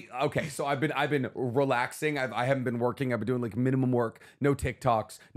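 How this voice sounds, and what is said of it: Low, strained voice, can't get loud. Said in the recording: “hanging out with Eeyore from Winnie the Pooh... On your vocal hangover... I literally can't even raise my voice”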